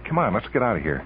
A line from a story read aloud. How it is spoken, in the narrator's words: Hank said anxiously